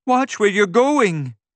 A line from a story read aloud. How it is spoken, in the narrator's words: Candace exclaimed